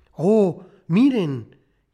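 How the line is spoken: Surprised, joyful exclamation. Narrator (Spanish): sorprendida, exclamó alborozada

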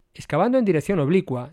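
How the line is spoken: Plain. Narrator (Spanish): dijo Brian

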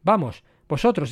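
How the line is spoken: Exclaimed. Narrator (Spanish): exclamó Gordon

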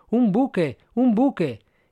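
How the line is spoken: Exclamation. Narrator (Spanish): exclamando a su vez

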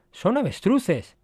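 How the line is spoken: Excited exclamation. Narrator (Spanish): Al divisarlos, Servis exclamó

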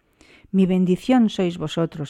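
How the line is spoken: Exclaimed. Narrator (Spanish): exclamó Chaudar

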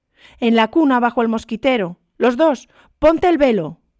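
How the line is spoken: Shouted. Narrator (Spanish): gritó Kean

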